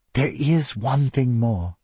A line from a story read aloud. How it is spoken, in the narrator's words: said in a whisper